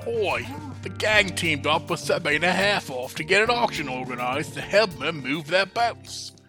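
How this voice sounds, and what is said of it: Character voice. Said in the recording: “Why isn't this just your regular character voice?”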